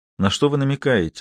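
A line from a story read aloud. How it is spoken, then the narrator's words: Completely calm question. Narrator (Russian): спросил совершенно спокойно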